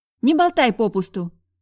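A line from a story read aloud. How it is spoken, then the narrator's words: Sharp retort. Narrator (Russian): резко отрезала незнакомка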